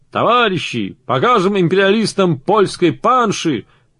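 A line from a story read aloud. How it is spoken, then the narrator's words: Shouting. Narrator (Russian): Все он кричал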